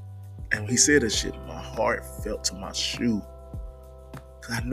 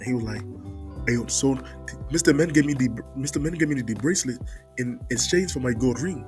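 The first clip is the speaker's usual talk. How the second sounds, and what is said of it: Imitated African accent. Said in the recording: “The kid was from Africa. ... And he had his accent. ... And he had an accent.”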